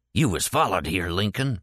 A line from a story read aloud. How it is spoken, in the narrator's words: said in a harsh whisper